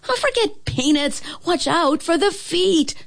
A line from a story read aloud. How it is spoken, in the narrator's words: shouted Whisk